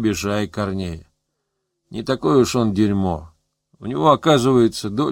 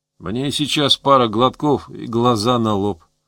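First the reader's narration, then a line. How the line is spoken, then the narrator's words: Sad. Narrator (Russian): сказал Гусев печально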